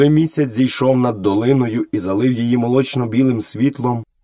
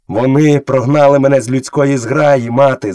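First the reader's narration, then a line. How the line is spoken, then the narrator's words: Shouting. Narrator (Ukrainian): закричав Мауглі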